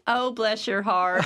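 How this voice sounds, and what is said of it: Put-on Southern accent. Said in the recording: “Let's do the rest of the podcast in a Southern accent.”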